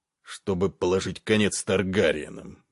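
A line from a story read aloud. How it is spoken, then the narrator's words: King grunting. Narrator (Russian): буркнул король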